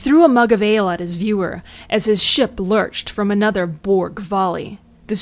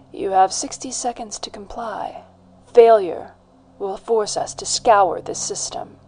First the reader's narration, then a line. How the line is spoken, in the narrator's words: replied Arya coolly